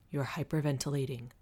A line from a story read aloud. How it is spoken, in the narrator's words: Colin said, his voice calm but firm